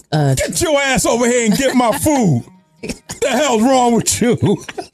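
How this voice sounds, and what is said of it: Scary dad voice. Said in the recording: “my dad voice... Damn, that scared me.”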